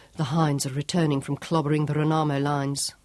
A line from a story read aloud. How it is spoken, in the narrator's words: Sean murmured